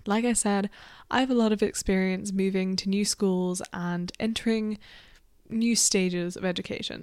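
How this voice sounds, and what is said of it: Croaky, hoarse ill voice. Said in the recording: “I'm a little bit ill ... my voice just sounds like a little bit croaky ... it is hard to speak at the minute”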